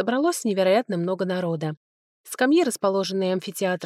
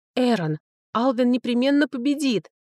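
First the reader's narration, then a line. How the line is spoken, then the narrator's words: Eager soothing exclamation. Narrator (Russian): воскликнула я, пытаясь сгладить неловкость от слов дракона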